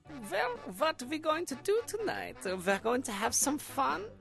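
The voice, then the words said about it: Deliberately bad put-on German accent. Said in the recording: “a comedically bad one ... this terrible German accent ... it's terrible”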